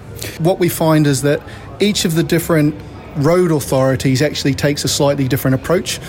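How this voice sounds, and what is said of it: Australian or New Zealand accent. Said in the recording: “listening to your accent, clearly there's an Antipodean twang in there”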